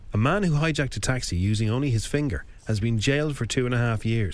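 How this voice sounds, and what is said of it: Put-on accent while reading news. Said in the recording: “I don't know why I'm doing that accent”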